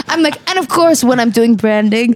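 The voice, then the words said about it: Put-on Instagram branding voice. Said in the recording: “What's the accent? ... That's my Instagram branding voice.”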